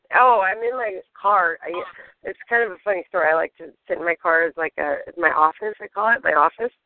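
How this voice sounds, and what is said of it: Strained, fading voice. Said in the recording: “I'm like losing my voice ... I strain when I talk ... I'm like losing my voice”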